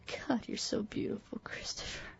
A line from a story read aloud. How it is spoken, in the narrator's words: she moaned